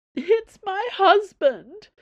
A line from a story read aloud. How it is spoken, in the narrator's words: Madame Sue howled